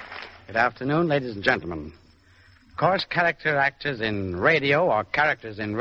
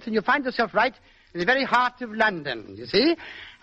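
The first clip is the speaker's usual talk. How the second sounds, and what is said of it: Put-on English accent with lilt. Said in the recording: “over in England ... you simply put in a bit of an accent like this and add a little bit of a lilt”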